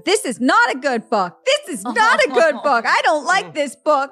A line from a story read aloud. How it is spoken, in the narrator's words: crying and being really mad and yelling